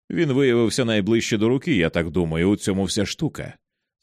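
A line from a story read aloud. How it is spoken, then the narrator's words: Confident tone. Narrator (Ukrainian): сказав впевненим тоном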